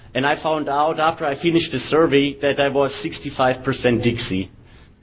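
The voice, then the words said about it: Southern Texan accent. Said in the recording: “my Texan accent, as you can hear. It's actually pretty southern.”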